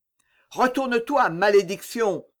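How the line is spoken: Old man shouting. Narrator (French): cria le vieillard

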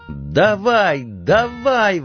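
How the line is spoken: Yelling. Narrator (Russian): вопил Донован

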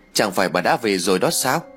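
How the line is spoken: Smiling. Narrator (Vietnamese): Ái mỉm cười rồi nói

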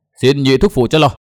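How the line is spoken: Shout. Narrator (Vietnamese): Nguyên Bình hét

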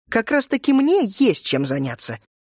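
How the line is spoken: Sharp reply. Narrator (Russian): резко ответила Гердиния

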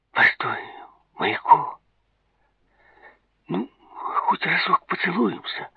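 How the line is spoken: Strained, forced out. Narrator (Russian): с трудом выдавил из себя Давид

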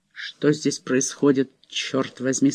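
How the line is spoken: Plain. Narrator (Russian): спросил Джон

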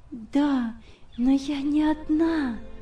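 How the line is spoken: Smiling whisper. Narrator (Russian): прошептала она, улыбаясь

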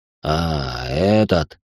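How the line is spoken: Snort. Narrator (Russian): хмыкнул Иван

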